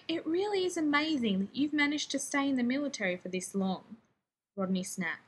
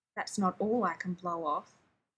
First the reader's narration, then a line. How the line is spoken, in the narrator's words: he growled, because he just couldn't pass that one up